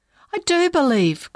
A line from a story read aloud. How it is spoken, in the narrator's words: cried the father